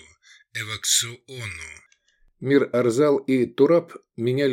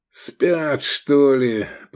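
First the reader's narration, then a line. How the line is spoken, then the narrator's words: Grumbled. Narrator (Russian): проворчал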